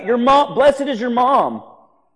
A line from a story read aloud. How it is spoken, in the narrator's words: somebody shouts out